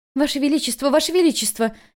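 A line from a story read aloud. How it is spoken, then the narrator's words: Frightened shout. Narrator (Russian): испуганно закричала Миньюй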